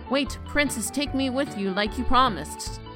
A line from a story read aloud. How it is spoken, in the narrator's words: The frog called out after her